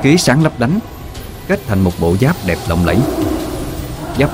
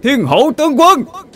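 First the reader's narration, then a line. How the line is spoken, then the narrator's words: Tiger roaring. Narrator (Vietnamese): cọp gào lên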